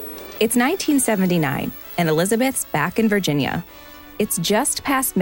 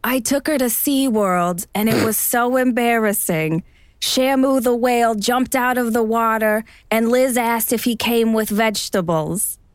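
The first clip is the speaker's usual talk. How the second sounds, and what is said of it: Imitates another person's voice. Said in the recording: “my best Joan impersonation? ... That was for the accent.”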